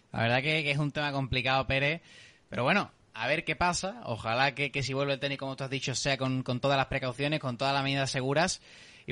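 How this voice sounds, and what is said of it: Southern Spanish accent. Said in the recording (Spanish): “por mi acento, por mi forma de hablar, puedes imaginarte ya de qué ciudad del sur”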